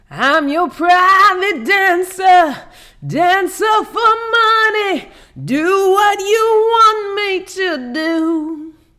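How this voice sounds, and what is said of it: Raspy singing imitating another person's voice. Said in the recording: “imitating Tina Turner today, y'all, because I got a chest cold.”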